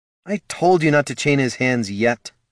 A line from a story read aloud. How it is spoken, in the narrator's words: sighed Dev